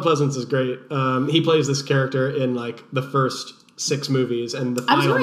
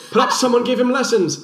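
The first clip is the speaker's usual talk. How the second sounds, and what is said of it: Donald Pleasence impression, British accent. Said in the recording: “my Donald Pleasance impression. He has this like funny little British accent.”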